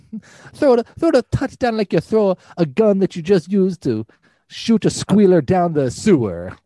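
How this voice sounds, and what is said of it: Put-on Italian-American accent. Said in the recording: “We don't offend all of our Italian-American listeners like we do every single week. ... I have to do an Italian impersonation.”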